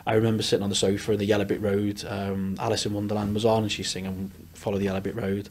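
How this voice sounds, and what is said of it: Liverpool Scouse accent. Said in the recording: “That's not a Leeds accent ... I am a Scouser by trade”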